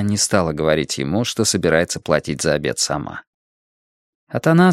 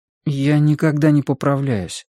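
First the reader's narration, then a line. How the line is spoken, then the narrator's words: Timid. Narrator (Russian): робко сказал Атанас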